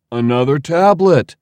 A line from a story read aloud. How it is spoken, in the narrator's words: Leo exclaimed